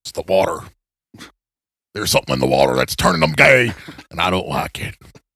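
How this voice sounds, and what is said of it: Imitates another person's voice. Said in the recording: “Is that an Alex Jones impression? ... Good enough for me to know what it was.”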